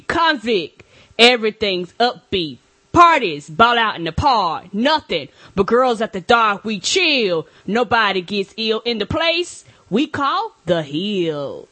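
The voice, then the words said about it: Raps imitating another person's voice. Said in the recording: “I was trying to do my cool Mo D impression ... that was pretty good ... you were missing a little bit of the ha ha ha”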